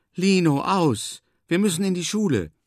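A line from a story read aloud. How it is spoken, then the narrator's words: Agitated call. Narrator (German): ruft Moma aufgebracht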